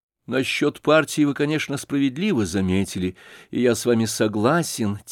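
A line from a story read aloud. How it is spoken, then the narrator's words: Quiet reply after pause. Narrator (Russian): тихо ответил князь, капельку помолчав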